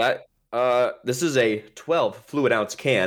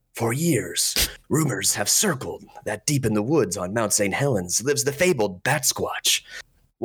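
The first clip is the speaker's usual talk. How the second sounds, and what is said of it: Put-on cool narrator voice. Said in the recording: “I'm going to try to read this in a cool voice”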